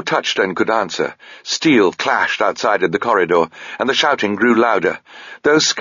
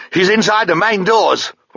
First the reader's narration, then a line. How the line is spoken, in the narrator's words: one of them shouted back towards Sabriel, his face white with terror